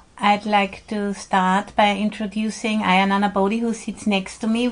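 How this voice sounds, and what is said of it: Austrian-accented English. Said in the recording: “I'm originally from Austria, so I speak with an accent.”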